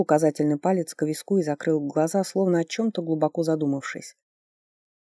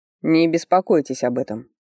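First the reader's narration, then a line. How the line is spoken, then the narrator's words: Condescending snort. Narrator (Russian): снисходительно хмыкнул Ричард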